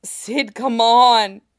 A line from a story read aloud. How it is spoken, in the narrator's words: he gasps